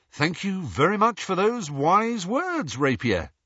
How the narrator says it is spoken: said Lee

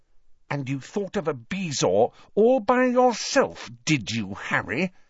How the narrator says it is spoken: she asked through gritted teeth

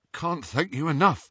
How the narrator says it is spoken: said Ron shakily

